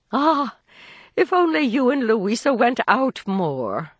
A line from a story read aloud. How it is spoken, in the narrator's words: sighed Mrs